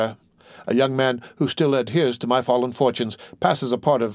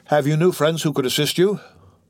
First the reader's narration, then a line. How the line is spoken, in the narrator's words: Morel smiled mournfully